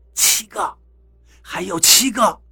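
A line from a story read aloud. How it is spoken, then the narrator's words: Soft voice. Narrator (Chinese): 张广川 轻声道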